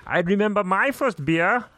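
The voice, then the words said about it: Impression of a film character. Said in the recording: “Is that your impression of ... Gunter? ... That was pretty good.”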